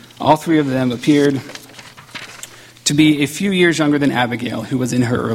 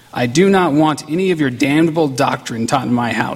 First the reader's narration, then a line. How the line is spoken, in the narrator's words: she said